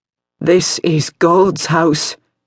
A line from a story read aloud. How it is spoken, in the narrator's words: Mother Serenity said in a reedy voice